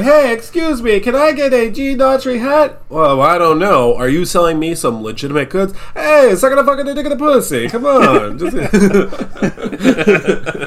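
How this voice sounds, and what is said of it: Exaggerated fake Italian accent. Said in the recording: “the normal Italians who are very real Italians who are doing normal accents that are real ... These are the most aggressive Italians I've ever seen.”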